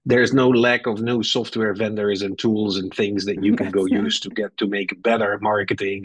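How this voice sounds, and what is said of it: Dutch accent in English. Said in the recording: “I have a Dutch accent, but I've been here for almost 15 years.”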